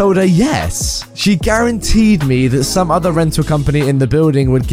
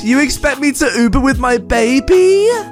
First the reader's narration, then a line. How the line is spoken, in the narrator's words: She, still shouting, went